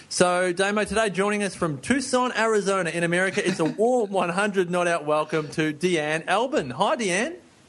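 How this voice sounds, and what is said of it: Put-on American accent, fairly convincing. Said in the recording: “turns on an American accent. He almost gets it right ... It's pretty good. Yeah, he said Tucson, Arizona, just like he lives here.”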